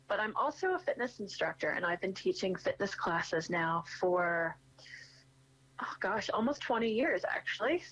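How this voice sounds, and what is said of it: American accent. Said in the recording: “you can tell by my accent, I'm from the States”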